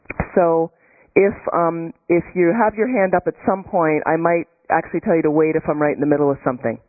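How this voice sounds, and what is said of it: Non-native English accent. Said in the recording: “my accent or my English”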